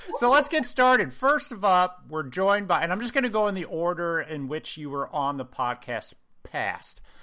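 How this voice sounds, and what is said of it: Speaks with a distinct accent. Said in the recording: “I'm the one with the weird accent”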